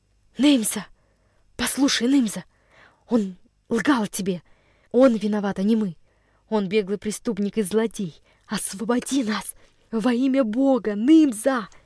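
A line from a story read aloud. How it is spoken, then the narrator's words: Fervently pleading whisper. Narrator (Russian): прошептал Андрюша, вкладывая в свой голос самую горячую мольбу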